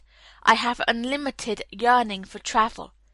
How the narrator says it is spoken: he sighed

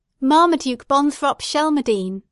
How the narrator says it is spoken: she cried

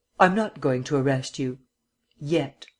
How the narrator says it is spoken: he reiterated a bit harshly

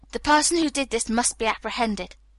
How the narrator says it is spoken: said firmly

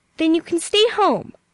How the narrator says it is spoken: said Aunt Elizabeth angrily

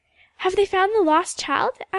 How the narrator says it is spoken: asked Ilse eagerly

